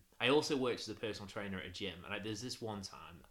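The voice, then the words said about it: Northern English accent. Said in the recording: “my northernish accent”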